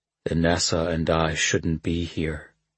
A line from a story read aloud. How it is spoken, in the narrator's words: Kalad said softly